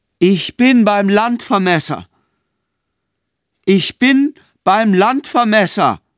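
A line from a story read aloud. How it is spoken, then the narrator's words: Calling out. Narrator (German): klopfte mit ihr an die Tür und rief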